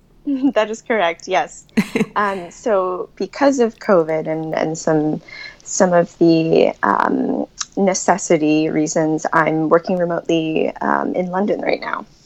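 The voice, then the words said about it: Slight American accent. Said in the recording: “what sounds like a bit of an American accent”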